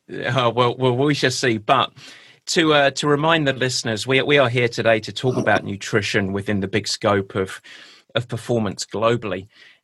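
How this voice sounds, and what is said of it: English accent. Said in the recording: “my pure English accent”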